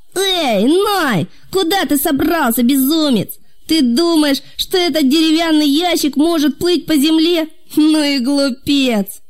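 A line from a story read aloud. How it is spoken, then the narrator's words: Loud shouting. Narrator (Russian): Какие-то люди громко кричали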